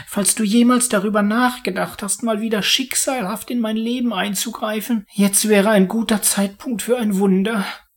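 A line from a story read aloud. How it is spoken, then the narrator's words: Pleading. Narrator (German): flehte er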